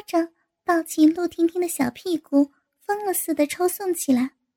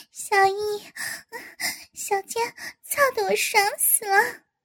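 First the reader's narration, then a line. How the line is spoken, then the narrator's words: Laughing. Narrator (Chinese): 陆婷婷 对宋小艺笑道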